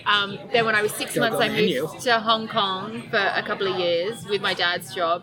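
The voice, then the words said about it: Very mild Australian accent. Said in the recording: “your accent, it seems like a very mild Australian accent to me.”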